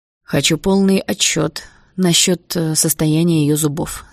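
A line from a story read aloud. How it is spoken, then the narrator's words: Plain. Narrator (Russian): сказал он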